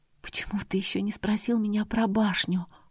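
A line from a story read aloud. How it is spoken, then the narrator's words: Whispered. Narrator (Russian): шепотом произнесла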